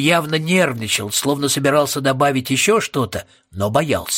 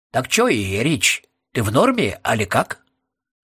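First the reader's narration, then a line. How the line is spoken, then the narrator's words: Quiet, after a pause. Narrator (Russian): Роб помолчал и тихо добавил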